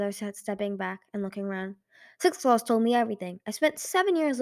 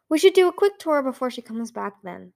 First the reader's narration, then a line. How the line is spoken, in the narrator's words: Thorin said cheerfully